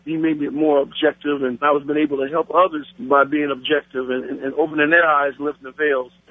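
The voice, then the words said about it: Black American accent. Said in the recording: “As you can tell by my voice, Friday, I'm a Black American.”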